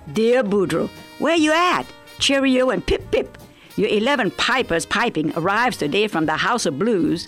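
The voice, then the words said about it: Cajun accent. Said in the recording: “Always like it in a Cajun accent. ... the most authentic Cajun I know”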